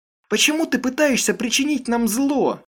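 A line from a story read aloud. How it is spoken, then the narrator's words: Shouted. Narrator (Russian): выкрикнула она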